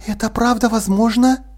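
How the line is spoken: Whisper. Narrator (Russian): шепнула Полли

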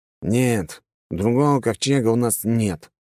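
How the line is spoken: Gruff mutter. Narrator (Russian): буркнул капитан

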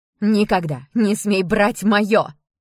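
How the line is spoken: Furious scream. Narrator (Russian): яростно закричала Ева

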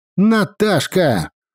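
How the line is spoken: Deafening shout. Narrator (Russian): Снова закричал, чуть не оглушив меня Серега

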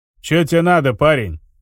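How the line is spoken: Growled, broken language. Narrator (Russian): рыкнул рыжий на ломаном вестонском

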